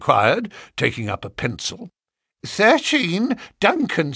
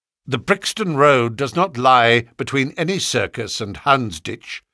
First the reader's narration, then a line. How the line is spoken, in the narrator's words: said Sherlock Holmes sharply